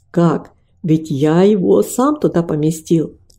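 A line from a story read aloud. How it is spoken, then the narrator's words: Plain. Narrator (Russian): ответил он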